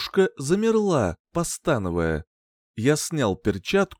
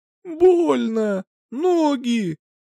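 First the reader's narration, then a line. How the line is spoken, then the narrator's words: Whimpering woman. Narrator (Russian): прохныкала она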